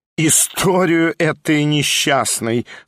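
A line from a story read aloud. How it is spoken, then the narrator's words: Spiteful laughing drawl. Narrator (Russian): со злобным смехом протянула Прасковья Ивановна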